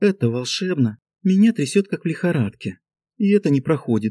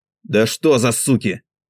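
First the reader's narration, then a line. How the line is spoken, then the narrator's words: Menacing hiss through teeth. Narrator (Russian): Грозно до мурашек недовольно шипит сквозь зубы Мин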